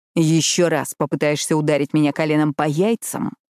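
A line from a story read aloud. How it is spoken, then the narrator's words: Growl. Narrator (Russian): прорычал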